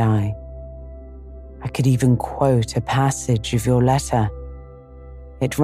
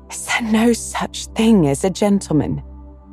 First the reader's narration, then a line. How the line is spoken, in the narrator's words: she gasped